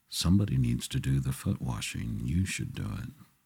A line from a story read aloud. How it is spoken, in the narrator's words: Peter said quietly to John